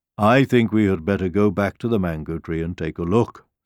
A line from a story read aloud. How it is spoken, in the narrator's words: said the lion